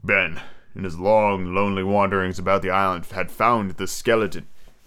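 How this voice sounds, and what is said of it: Deliberately deep reading voice. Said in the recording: “do my cool deep voice”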